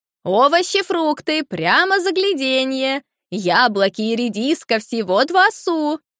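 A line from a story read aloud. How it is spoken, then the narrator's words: Loud sing-song shouting. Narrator (Russian): громко нараспев кричала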